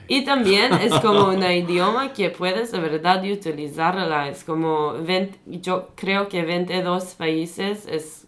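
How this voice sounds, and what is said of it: French accent. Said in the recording (Spanish): “Sí que tiene como un acento francés al hablar.”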